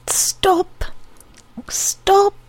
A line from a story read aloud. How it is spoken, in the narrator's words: cried all her nerves wailing along the surface of her skin